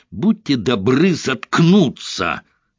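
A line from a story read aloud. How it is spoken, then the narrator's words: Barked. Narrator (Russian): рявкнул Айшем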